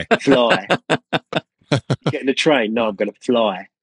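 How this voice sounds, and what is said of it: Put-on Cockney accent, shifted diphthongs. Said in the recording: “in a Cockney accent, particularly the diphthongs ... A, I. ... Fly.”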